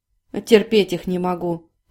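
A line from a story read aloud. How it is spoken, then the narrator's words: Grumbling. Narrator (Russian): проворчал Анжей, судя по звуку, возившийся с чем-то в углу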